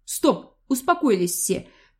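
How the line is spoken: Quiet, weighty heir. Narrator (Russian): тихо, но веско произнес наследник императорского престола

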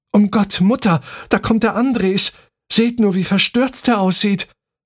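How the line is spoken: Calling out. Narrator (German): rief

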